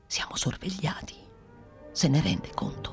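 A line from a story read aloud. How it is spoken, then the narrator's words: Whispering. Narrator (Italian): soggiunse bisbigliando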